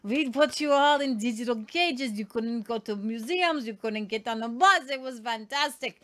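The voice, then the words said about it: Put-on mixed French-German accent. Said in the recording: “your accent right now is literally ... French and German ... are really close ... there's obviously no British accent in there”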